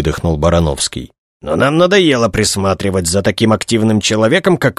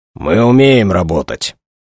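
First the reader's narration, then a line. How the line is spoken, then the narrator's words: Angry snap. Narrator (Russian): зло огрызнулся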